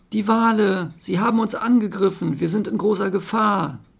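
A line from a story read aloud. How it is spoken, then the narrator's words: Dolphin shouting urgently. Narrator (German): herbeiziehender Regen, einer der Delfine, rief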